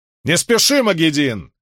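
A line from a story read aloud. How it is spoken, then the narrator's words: Shout. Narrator (Russian): крикнула Бергитта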